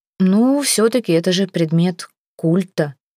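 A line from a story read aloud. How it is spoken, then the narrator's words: Timid objection. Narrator (Russian): робко возразил Артем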